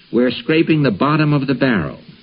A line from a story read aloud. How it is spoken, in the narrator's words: he told his household with a sigh